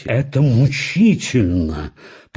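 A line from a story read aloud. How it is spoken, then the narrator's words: Through gritted teeth. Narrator (Russian): процедил сквозь зубы художник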